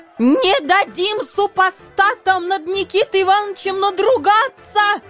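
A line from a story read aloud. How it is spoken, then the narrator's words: Strained wailing woman. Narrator (Russian): Надсадно вопила какая-то тетка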